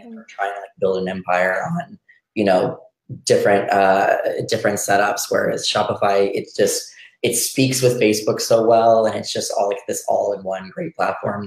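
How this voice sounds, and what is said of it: Hoarse, partly lost voice. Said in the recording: “I have a I lost my voice a little bit this weekend, so I'm recovering back a little back slowly. It's much better than yesterday”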